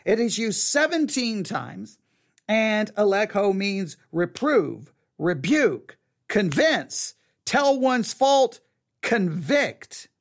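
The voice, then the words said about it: Texas accent. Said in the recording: “with my Texas accent”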